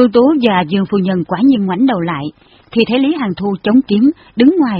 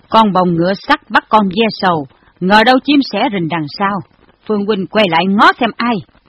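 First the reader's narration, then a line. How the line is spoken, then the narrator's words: Cold. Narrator (Vietnamese): Miệng y lạnh lùng nói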